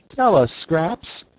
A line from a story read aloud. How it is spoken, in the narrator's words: begged Dorothy